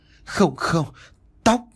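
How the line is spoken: Frightened, trembling. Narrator (Vietnamese): mẹ tôi tái mét run rẩy

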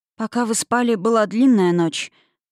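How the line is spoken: Sorrowful sighing reply. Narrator (Russian): ответила Юлия, горестно вздохнув

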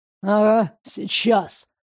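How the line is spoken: Growl. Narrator (Russian): рыкнул Римас

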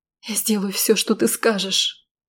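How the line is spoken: Quiet pleading. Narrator (Russian): умоляюще глядя на него, тихо произнесла я

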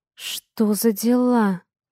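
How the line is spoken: Muttered. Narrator (Russian): Пробормотала

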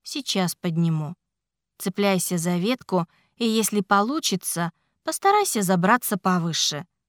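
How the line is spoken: Calm. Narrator (Russian): спокойно сказал Ричард

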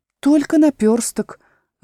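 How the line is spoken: Sad reply. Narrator (Russian): грустно ответила та

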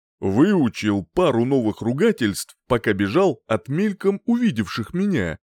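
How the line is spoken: Wry snort. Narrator (Russian): хмыкнул

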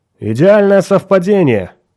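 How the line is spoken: Loud. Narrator (Russian): громко проговорил он

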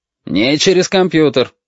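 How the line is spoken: Barking. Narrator (Russian): рявкнул отец

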